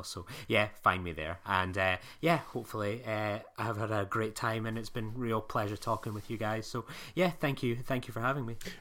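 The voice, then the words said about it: Scottish accent. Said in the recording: “my Scottish dulcet tones”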